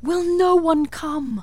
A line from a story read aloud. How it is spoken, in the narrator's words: it cried